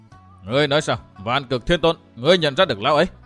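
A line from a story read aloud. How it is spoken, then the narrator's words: Raised voice, questioning. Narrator (Vietnamese): người đó cao giọng hỏi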